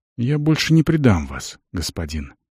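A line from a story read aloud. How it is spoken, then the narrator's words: Quiet. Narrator (Russian): тихо сказал тот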